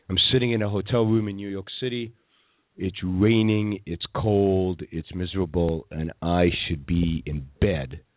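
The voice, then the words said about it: Tired, low-energy sick voice. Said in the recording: “my voice is not its usual energized self. I'm sick ... Sick as a dog.”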